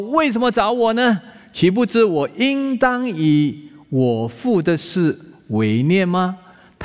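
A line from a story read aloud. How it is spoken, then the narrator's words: Plain. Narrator (Chinese): 他说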